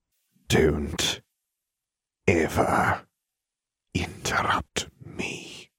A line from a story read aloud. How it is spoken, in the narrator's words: in a dangerous voice he said